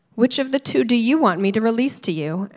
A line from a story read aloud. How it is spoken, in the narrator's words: asked the governor